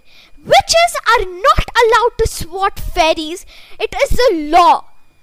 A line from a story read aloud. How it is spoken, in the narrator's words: Fran shouted